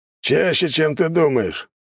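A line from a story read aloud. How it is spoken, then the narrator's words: Pig's pleased grunt. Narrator (Russian): довольно хмыкнул свин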